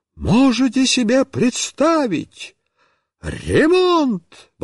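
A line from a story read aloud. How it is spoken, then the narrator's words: Exclaiming. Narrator (Russian): воскликнула Марья Петровна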